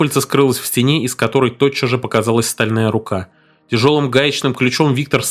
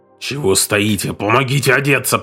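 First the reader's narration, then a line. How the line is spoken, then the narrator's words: Growled. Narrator (Russian): прорычал капитан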